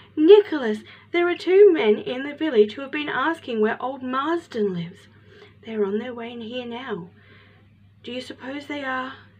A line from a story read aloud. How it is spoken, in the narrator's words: panted